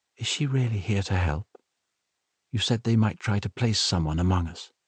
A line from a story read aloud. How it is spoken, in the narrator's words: whispered